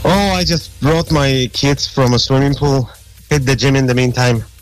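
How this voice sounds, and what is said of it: Polish accent. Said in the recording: “Where's that accent from?... That's an accent that I can't get rid of. It's from Poland... Polish... you haven't lost your accent”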